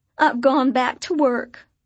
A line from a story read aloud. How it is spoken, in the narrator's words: she announced in a wail